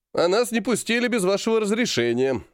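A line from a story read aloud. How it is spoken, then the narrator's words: Snide reply. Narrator (Russian): ехидно ответил Серый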